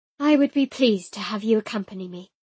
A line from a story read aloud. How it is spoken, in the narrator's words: I said with a sigh